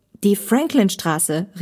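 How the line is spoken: Calling out. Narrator (German): rief Olli

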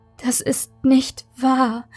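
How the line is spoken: Whimpering. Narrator (German): Maike wimmerte

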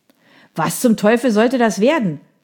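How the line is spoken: Angry shout. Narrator (German): schrie eine wütende Stimme

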